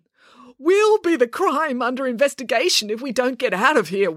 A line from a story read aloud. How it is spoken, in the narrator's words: wailed Dad